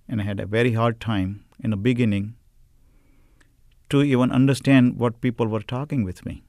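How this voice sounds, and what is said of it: Indian-accented English. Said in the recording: “From the culture where I come from ... India ... I have an accent”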